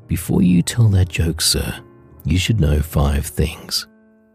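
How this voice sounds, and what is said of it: Deep voice. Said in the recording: “In a deep voice,”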